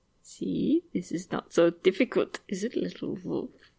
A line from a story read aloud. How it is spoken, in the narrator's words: Iago murmurs